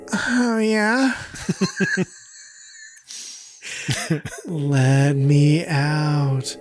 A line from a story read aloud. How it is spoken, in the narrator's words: The voice then begins to moan, finally saying